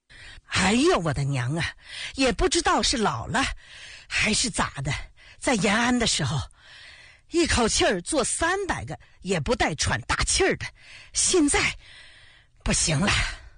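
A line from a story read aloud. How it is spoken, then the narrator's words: Out of breath. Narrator (Chinese): 陈开瑶气喘吁吁地说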